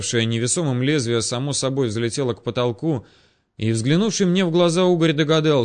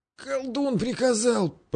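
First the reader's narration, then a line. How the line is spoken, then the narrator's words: Hoarse wheeze. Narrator (Russian): просипел мужик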